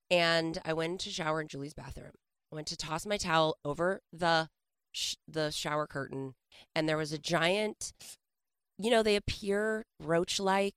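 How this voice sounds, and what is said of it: Hoarse, failing voice. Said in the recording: “I'm feeling under the weather. I'm about to lose my voice.”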